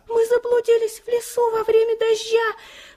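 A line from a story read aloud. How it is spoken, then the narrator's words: Faint squeak, baby bird. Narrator (Russian): пропищал еле-еле один из щеглят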